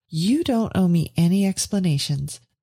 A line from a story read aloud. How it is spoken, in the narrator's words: said Veronica warmly